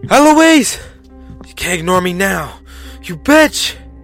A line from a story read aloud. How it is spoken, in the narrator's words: all the while yelling